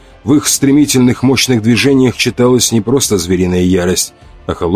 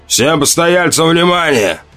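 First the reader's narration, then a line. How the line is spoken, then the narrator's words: Thunderous bark. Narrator (Russian): рявкнул он громовым, перекрывающим шум голосом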